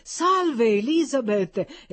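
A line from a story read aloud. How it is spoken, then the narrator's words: Exclaiming. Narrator (Italian): esclamò Peter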